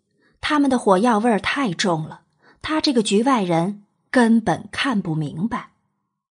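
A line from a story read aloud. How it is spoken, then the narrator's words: Quiet muttering. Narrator (Chinese): 娄玄影小声嘀咕了句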